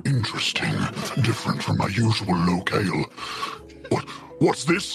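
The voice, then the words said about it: Venom-like monster character voice impression. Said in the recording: “that a good Venom impression ... Still really good ... The impression was so good.”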